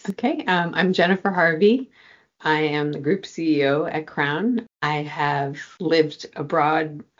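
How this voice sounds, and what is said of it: American accent. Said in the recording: “You can hear from my accent that parents are American. I'm American national.”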